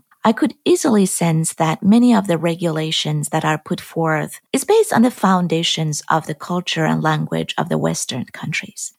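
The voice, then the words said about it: Iranian-accented English. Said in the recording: “As you have noticed from my accent, I'm not from the US. I was born and raised in Iran.”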